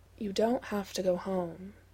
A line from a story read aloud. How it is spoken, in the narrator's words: says quietly